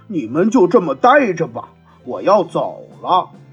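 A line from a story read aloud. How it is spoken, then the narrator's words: Loud, despairing. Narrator (Chinese): 狼彻底绝望了，他大声说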